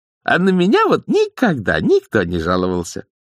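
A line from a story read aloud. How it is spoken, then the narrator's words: Joyful old nanny. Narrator (Russian): радостно сообщила нянюшка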